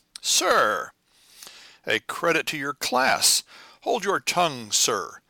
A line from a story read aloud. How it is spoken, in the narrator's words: bellowed the captain again, as if his anger was uncontrollable